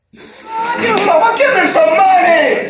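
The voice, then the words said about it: Raised, shouting voice. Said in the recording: “Don't you raise your voice at me!”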